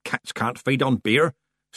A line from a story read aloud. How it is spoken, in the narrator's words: snapped Granny Weatherwax